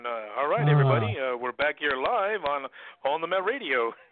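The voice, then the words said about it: Announcer-style radio voice. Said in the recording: “Let me use my radio voice on this one.”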